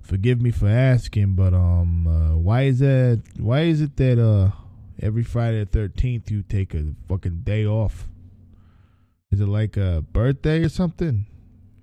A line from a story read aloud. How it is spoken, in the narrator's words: he asked